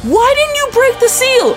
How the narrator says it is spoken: she screams and looks up at me and goes

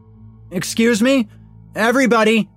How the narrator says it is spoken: he bellowed

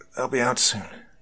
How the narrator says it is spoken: I murmured

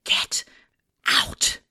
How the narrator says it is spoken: I don't know what bravery I mustered out of my ass, but I whispered

